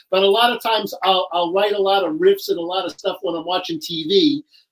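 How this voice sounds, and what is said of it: New York accent. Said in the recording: “I'm from New York, as you can hear by my accent.”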